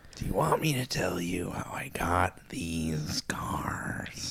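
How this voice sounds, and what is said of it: Joker-style character voice. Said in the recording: “Do your impression. ... Maybe the whole Joker”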